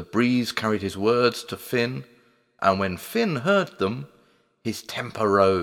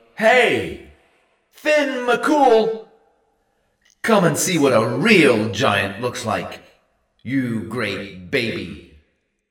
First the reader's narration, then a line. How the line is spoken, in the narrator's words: Cupping his hands to his mouth, he bellowed